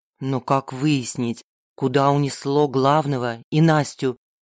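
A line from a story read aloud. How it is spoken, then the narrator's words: Plain. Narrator (Russian): спросил Серж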